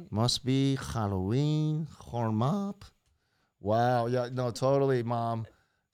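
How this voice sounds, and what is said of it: Put-on accent imitating another person. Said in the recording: “I'm doing the accent because this is what Sophia sounds like to me ... I added a totally different culture in there ... that's not how she sounds at all”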